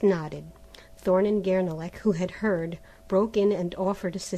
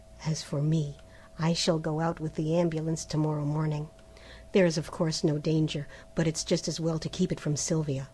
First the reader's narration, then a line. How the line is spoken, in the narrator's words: dropping his voice and speaking in English